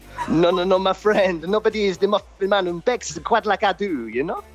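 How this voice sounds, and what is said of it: Muffin Man character accent, slipping. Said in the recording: “doing the voice ... The accent's slipping somewhat. ... The accent is born.”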